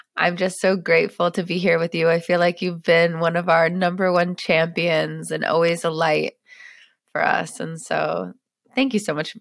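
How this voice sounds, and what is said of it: Voice of someone with a cold. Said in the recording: “I think ... might have a little bit of a cold ... I have a cold.”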